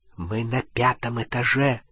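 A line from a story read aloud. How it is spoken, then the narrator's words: Whisper. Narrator (Russian): прошептал он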